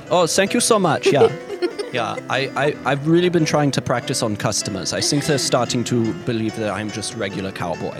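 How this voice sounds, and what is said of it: Character voice with accent. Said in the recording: “Hans, your accent, wow, it's getting real good, buddy.”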